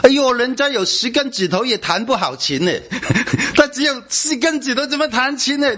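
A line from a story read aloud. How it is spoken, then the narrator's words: Mocking. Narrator (Chinese): 人家都嘲笑他的母亲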